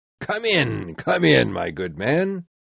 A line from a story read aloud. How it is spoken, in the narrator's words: said the ghost in a loud, cheerful voice